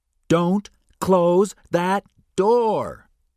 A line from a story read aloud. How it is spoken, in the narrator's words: O'Connell shouted at Benny